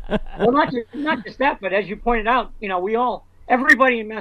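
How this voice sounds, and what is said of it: Usual voice. Nothing is said of it.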